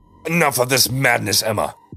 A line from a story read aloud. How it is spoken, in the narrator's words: he roared